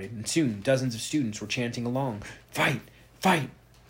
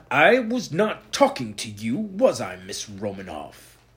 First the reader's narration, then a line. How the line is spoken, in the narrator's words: Blackstone snapped at her, cutting her off with an icy stare